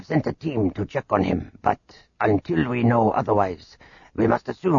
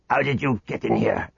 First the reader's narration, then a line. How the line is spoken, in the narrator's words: Garak snarled